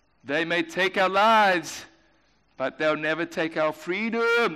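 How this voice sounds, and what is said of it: Poor put-on Scottish accent. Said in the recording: “me trying to do a really poor Scottish accent”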